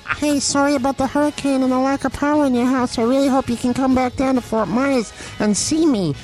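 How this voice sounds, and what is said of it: Character voice for a toothbrush. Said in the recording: “I can do a voice for Quip.”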